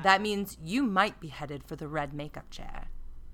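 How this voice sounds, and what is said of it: Inconsistent put-on British accent. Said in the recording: “I'm kind of doing like a Madonna style British accent where it's like sometimes it's a little British, but I'm not making a commitment.”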